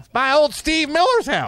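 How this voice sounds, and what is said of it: Put-on redneck accent. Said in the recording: “I just did the voice... I just did the redneck voice”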